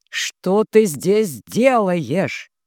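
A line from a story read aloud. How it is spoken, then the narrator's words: Near growl. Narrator (Russian): Жорж почти рычал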